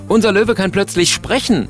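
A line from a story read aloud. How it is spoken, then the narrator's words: Calling out. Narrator (German): ruft er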